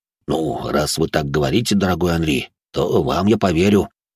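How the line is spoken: Grumbled. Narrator (Russian): буркнул де Журиньи

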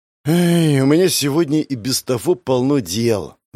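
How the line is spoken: Sighing. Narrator (Russian): вздохнул я

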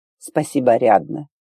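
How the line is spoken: Calm reply. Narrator (Russian): ответил спокойно

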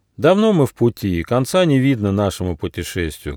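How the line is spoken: Sad. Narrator (Russian): грустно сказал гномик

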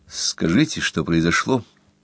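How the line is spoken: Gentle question. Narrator (Russian): мягко спросил Рудольф

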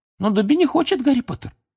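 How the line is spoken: Squeaky voice. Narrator (Russian): Снова запищал он

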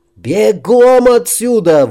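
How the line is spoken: Shouted. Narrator (Russian): выкрикнул Макс

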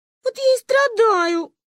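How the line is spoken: Sobbing harder than before. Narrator (Russian): пуще прежнего разрыдалась Маринка

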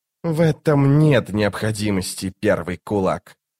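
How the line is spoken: Sarcastic, through teeth. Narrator (Russian): саркастически процедил чародей

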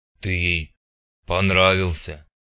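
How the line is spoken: Low booming drone. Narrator (Russian): прогудел надутый

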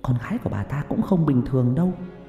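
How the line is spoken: Whisper. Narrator (Vietnamese): Người phụ nữ thì thầm

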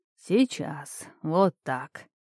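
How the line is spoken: Mumbling. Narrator (Russian): бормотал Эринеус

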